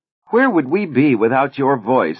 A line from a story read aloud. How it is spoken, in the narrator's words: another cried